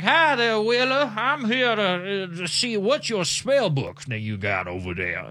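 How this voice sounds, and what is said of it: Billionaire tycoon accent. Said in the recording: “billionaire tycoon accent”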